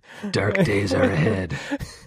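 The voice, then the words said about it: Deep ominous voice. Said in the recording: “in a deep voice”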